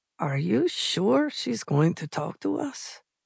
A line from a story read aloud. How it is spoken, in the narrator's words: Salviero murmured